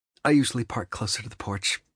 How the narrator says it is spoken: she mutters

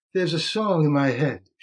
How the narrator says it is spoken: she said to Monty, in that breathless voice

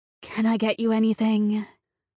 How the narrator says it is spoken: Her voice was suggestive

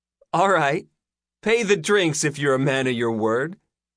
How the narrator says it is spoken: Layla laughed

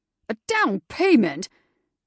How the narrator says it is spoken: he sputtered, looking horrified

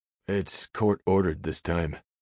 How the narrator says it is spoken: he added sadly

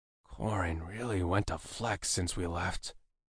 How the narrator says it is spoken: I murmured to myself

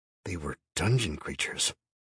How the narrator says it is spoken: I whispered

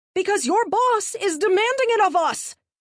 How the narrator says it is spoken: Marty yelled

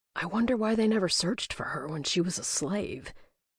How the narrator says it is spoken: Draven whispered, his voice trailing off

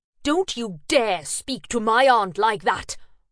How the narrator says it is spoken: I spat

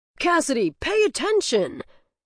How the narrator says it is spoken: shouts Coach

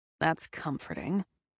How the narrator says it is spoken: Damon grumbled

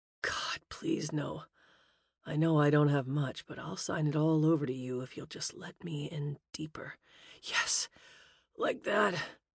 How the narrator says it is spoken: groaned

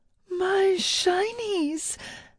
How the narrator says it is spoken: Illith wailed

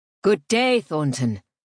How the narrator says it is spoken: Father's voice boomed

